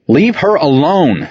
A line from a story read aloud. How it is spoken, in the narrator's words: Saint yelled